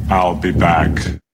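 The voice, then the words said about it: Arnold Schwarzenegger impression, Chewbacca-like. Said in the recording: “I tried to do my Arnie, but I couldn't stop laughing ... Sounded like Chewbacca ... You sounded like Arnie doing a Chewbacca impression”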